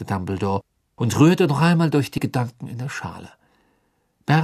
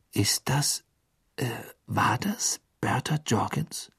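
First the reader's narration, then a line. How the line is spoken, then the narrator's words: Whispered. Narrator (German): flüsterte Harry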